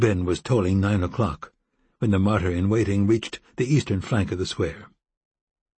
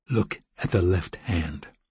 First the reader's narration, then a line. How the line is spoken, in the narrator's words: he said quietly